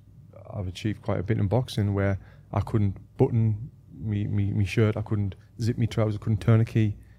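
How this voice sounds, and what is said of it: Northeast England Sunderland accent. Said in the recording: “everyone hearing your accent, what kind of UK accent is that? ... I'm from Sunderland in the northeast of England.”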